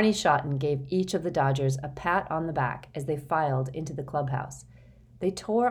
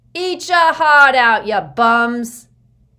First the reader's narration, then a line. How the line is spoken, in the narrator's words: the lady in center field clanged her cowbell and shouted